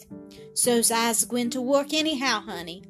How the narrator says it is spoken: he answered with a sound between a sigh and a groan

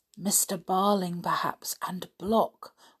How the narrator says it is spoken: whispered George

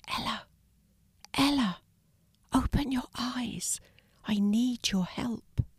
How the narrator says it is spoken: Very softly he whispered

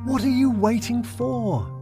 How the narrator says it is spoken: screamed

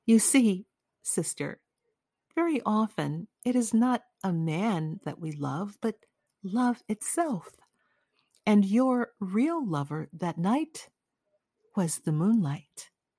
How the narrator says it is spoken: Madame Robert, with a self-contained and serious air, said very gently

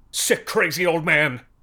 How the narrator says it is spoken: somebody shrieked over the speakers

